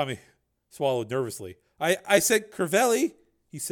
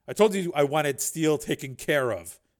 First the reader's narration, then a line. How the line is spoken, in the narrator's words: Borodini said